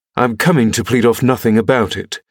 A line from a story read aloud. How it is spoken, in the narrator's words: exclaimed, considerably irritated